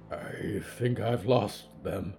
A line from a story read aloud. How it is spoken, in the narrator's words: Solomon whispered, and his glasses fell out of his shaking hands